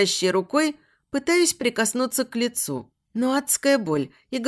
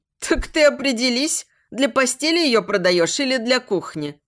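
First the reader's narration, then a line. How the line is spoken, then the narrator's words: Laughing. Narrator (Russian): Засмеялась женщина, которой торговец пытался меня продать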